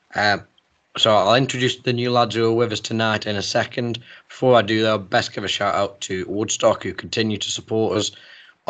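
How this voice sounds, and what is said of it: Hoarse, failing voice. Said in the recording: “my voice is trying its best to leave me”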